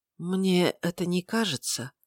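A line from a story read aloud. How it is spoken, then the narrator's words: Quiet question. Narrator (Russian): тихо спросил священник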